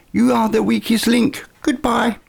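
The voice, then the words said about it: Weak impression of Anne Robinson. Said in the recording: “Not a very good impression, I'll give you”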